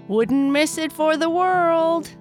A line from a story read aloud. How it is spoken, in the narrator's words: Kai Kai yelled as he flew up into the sky